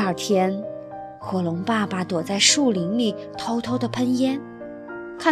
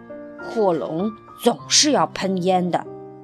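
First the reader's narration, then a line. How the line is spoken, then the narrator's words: Muttering. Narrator (Chinese): 火龙爸爸嘟囔着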